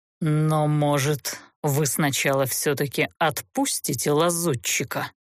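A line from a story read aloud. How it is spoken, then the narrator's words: Icy tone, seething fury. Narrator (Russian): Ледяным тоном, в котором кипело бешенство, осведомился змей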